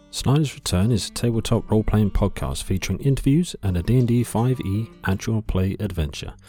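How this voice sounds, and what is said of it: British accent. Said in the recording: “If you couldn't tell by the lovely accent, they are a UK-based”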